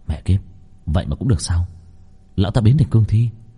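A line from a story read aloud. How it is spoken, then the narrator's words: Muttering. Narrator (Vietnamese): Long Vân lẩm bẩm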